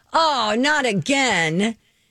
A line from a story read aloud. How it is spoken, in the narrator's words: he finally yelled